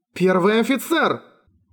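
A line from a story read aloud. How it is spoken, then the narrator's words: Nearly shouting. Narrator (Russian): Найглата почти закричала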